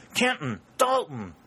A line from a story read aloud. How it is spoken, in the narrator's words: exclaimed